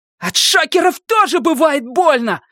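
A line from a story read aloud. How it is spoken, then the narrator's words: Yelling. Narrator (Russian): заорал Люк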